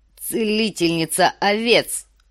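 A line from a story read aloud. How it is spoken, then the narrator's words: Snorting. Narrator (Russian): фыркнул Квота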